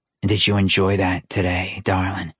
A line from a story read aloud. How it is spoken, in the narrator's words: His voice was as dark